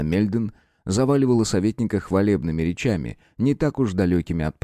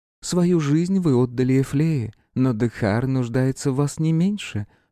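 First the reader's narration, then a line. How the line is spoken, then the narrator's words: Silky ingratiating. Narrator (Russian): вкрадчиво завершила королева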